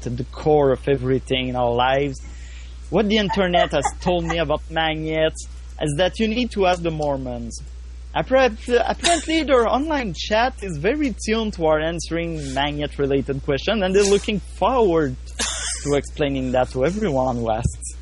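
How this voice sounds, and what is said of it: Speaks in a put-on accent. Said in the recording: “That was made so much better by your accent. That was phenomenal.”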